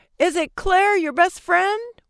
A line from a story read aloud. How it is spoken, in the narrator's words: one shouted